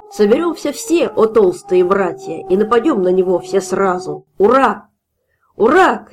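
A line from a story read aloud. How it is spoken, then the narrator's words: Shouting crowd. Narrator (Russian): кричали пузыри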